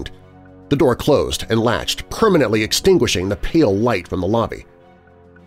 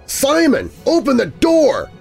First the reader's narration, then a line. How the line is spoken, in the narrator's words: I screamed again